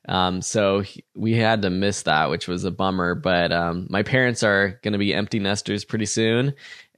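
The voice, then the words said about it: Congested voice from a cold. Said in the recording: “As you can probably hear from my voice, I'm getting over a cold myself.”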